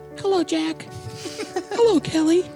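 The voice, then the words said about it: High-pitched put-on female voice. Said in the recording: “It's going to be a high-pitched voice.”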